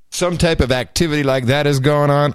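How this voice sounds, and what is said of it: Mock official CIA agent voice. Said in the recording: “talking like a CIA agent”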